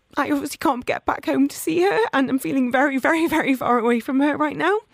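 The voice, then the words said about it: Emotional, shaky voice. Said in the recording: “the reason I'm getting a bit emotional”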